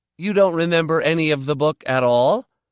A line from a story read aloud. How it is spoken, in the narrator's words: I said, raising my voice a little